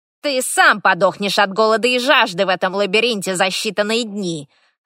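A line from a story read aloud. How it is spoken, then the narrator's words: Snapping retort. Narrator (Russian): огрызнулся оборотень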